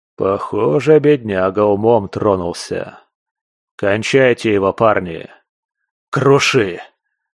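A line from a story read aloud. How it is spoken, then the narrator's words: Exhaled. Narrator (Russian): Выдохнул я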